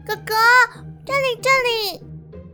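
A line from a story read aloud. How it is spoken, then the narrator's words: Shouting. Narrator (Chinese): 星星马上大叫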